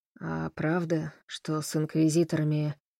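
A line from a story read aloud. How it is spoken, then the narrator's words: Hoarse question. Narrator (Russian): хрипло спросил Фрэнк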